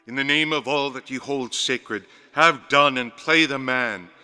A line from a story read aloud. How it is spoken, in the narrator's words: cried in a loud, firm voice